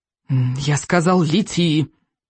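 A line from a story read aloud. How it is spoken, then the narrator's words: Irritated repeat. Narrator (Russian): раздраженно повторил Икинг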